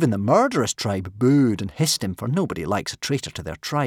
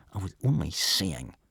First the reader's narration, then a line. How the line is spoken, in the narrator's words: Snotlout turned a bright and unattractive red and muttered sullenly